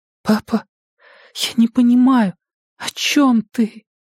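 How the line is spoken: Quiet trembling question. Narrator (Russian): спросила она тихим дрожащим голосом

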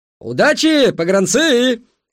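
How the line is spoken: Shouted from afar. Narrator (Russian): закричал с перона Петрайх

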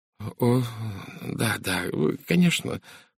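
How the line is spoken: Muttered. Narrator (Russian): пробормотала она

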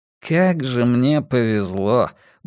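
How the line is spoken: Grumbling beast. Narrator (Russian): буркнул зверюга

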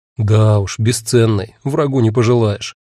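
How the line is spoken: Gloomy. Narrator (Russian): мрачно сказал я

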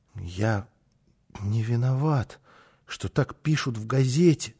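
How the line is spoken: Muttering. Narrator (Russian): пробормотал он снова

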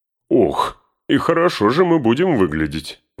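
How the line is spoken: Laughing exclamation. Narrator (Russian): Внезапно расхохотавшись, воскликнул Гимли

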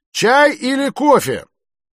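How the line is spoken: Loud question. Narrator (Russian): громко спросил

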